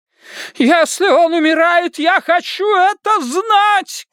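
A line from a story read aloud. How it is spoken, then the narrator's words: Mother shouting. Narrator (Russian): кричала его мать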